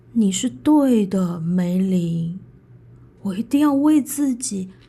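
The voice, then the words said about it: Sad, quiet voice. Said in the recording (Chinese): “悲伤的小声说着”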